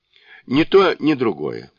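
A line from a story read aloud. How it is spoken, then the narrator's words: Calm. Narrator (Russian): спокойно ответил Сунь-Кун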